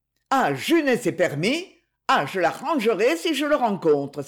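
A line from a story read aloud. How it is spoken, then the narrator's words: Exclaiming. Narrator (French): s'écria-t-elle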